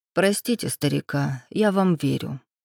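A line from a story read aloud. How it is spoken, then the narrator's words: Unexpectedly gentle. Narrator (Russian): неожиданно мягко произнес Солонский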